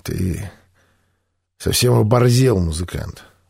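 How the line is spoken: Hoarse wheeze. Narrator (Russian): прохрипел Пыльный

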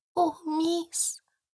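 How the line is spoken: Whispered. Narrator (Russian): прошептала она

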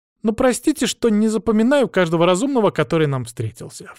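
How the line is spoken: Girl's snort. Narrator (Russian): фыркнула девочка

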